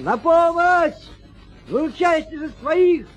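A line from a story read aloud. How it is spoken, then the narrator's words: Shouted. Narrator (Russian): крикнул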